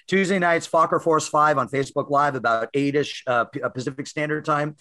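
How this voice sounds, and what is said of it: Slightly hoarse voice. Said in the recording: “That's why I'm a little hoarse.”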